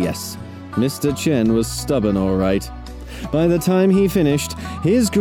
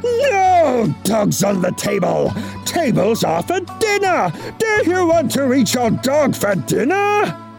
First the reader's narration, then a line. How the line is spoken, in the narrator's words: he roared